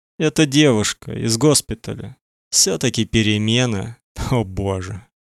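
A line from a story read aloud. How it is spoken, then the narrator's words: Sigh. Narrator (Russian): Моника вздохнула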